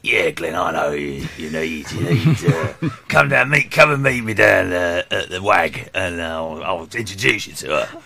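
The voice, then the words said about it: Imitates another person's voice. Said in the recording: “good impression ... That is really good.”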